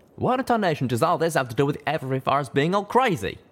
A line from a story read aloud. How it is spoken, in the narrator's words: Calamity called back impatiently